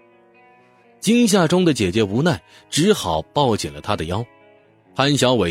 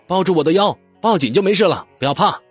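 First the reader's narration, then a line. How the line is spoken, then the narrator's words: Loud. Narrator (Chinese): 潘小伟也大声说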